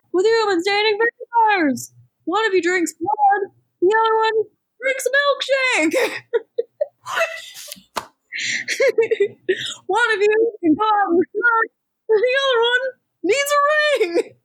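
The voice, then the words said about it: Imitates a stand-up comedian's voice. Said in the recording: “A pretty good Seinfeld impression, I think we can all agree. ... a really bad Jerry Seinfeld impression”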